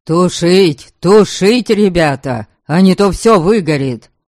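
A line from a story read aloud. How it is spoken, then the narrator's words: Hoarse shouting over noise. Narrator (Russian): Орал домогость, пытаясь перекричать общий шум и треск пламени, почти уже сорвал голос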